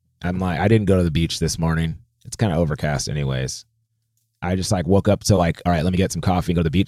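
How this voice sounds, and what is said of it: Tired voice. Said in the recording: “I played a gig last night and I'm really tired... You can hear it in my voice.”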